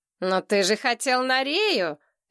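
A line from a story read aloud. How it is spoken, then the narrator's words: Unexpectedly high voice. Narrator (Russian): Кимыч, неожиданно тонким голосом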